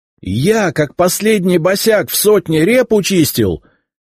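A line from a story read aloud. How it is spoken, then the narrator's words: Nearly yelling. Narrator (Russian): чуть не орал я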